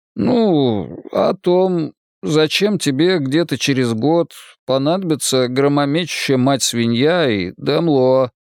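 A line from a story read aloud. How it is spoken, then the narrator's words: Forced out. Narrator (Russian): выдавил я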